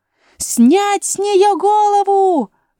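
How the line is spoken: Queen's shrill shout. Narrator (Russian): пронзительно крикнула королева

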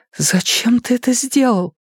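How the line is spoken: Sobbing. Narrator (Russian): разрыдалась

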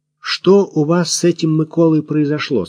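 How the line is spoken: Plain. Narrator (Russian): спросил Максим

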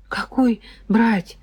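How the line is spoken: Confused muttering. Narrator (Russian): растерянно пробормотал Сережка

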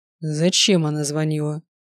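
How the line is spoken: Forced calm question. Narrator (Russian): максимально спокойно спросил он

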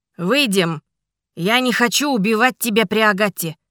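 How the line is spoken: Shouting. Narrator (Russian): крикнул Ричард

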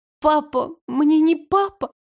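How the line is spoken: Sobbing. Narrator (Russian): всхлипнула она

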